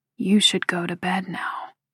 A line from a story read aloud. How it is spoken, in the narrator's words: he says in a low voice